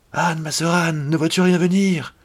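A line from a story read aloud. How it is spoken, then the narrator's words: Crying out. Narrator (French): Puis elle criait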